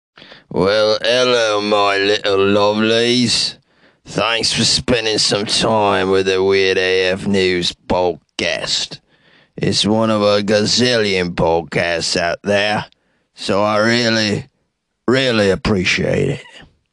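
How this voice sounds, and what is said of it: Deliberately put-on, poorly done accent. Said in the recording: “just trying out an accent here. I'm always trying to work on my accents because they're terrible. They're very terrible.”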